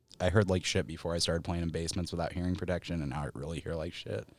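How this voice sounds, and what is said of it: Subdued soft radio-style voice. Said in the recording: “I'm using my NPR voice for this ... it's very ASMR ... you cannot be full tilt bar volume me on a podcast”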